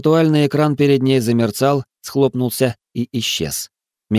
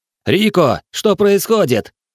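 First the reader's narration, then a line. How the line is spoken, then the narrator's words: Shout. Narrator (Russian): крикнул Нокс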